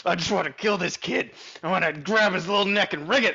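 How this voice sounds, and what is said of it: Deep, possessed-sounding imitation voice. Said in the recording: “Why do I have such a deep voice in your head? ... that's what you sound like when you get possessed”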